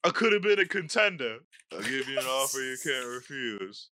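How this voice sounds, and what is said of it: Imitates another person's voice. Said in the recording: “that's my impersonation of Marlon Brando”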